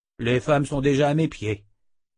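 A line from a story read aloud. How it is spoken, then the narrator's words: Cold remark. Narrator (French): lâcha froidement Oba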